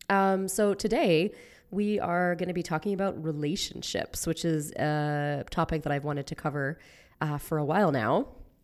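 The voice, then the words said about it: Raspy, sick-sounding voice. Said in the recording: “my raspy voice. I am sick right now”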